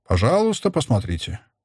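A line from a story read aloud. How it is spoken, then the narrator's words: Gentle, affectionate repetition. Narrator (Russian): повторил он ласково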